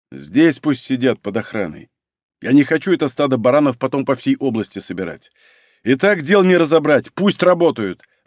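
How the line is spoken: Barking. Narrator (Russian): рявкнул Малинин

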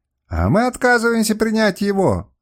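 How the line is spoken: Shout. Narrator (Russian): закричал Луриус

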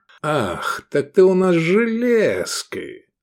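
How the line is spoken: Affectionate drawl. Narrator (Russian): ласково протянул он

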